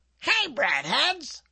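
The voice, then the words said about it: Imitated cartoon mascot voice. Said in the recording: “I think I'm doing a good imitation too... Now I do the bunny. Bunny from Bunny Bread.”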